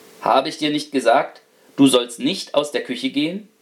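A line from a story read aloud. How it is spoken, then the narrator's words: Stern. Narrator (German): Er sagte streng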